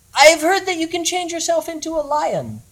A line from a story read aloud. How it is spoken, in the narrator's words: said the goblin hero in a high, crisp voice